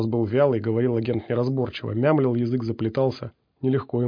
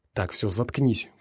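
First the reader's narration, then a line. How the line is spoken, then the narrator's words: Whispered. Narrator (Russian): прошептал пригоршня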